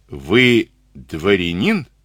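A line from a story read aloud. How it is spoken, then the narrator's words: Plain. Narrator (Russian): спросил он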